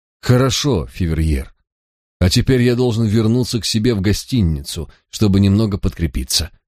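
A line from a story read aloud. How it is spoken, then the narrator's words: Sighing. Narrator (Russian): вздохнул я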